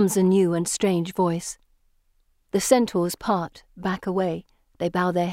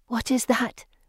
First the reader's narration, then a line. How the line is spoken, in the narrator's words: Anne whispers